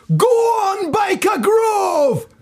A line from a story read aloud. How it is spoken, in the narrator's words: in his unmistakable Jamaican accent and a friendly grin